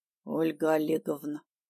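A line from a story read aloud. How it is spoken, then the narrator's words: Hoarse voice, throat clearing. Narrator (Russian): севшим голосом сказал парень, но поспешил прочистить горло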